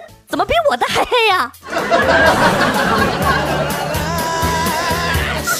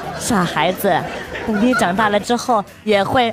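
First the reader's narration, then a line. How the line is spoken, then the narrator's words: Gentle mother. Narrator (Chinese): 妈妈温柔地说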